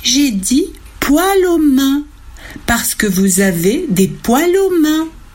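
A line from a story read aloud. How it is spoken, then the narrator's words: Plain. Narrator (French): dit Lucille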